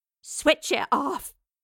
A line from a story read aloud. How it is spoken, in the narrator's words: growled